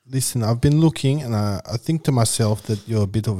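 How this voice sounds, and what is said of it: Put-on South African accent. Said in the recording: “You've done South African before for us... I like my South African one.”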